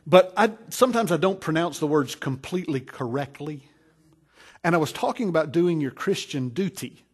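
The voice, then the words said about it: Southern US accent. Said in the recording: “I have a southern accent, I guess... It's pretty southern, maybe... I'm from North Carolina”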